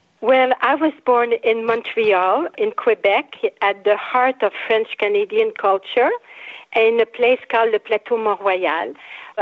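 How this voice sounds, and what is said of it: French-Canadian accent. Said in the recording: “you speak with a beautiful accent”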